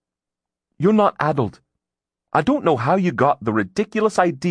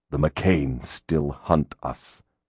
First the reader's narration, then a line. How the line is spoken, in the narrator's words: Grimm said through his teeth